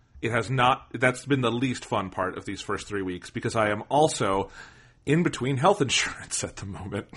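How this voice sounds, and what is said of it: Sick-sounding voice. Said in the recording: “You can probably hear in my voice I'm a little sick this week. I have had a horrible cough”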